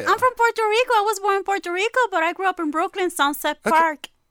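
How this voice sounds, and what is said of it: Distinctive regional accent. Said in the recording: “your unique accent there”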